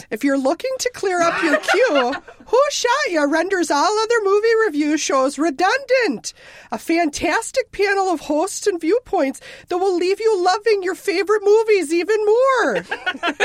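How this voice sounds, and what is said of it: Put-on Minnesota accent. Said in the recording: “I'm going to do it in a Minnesota accent. ... You're now from Minnesota.”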